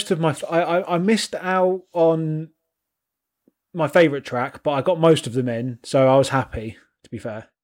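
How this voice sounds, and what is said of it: North Welsh accent. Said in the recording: “the North Walian accent”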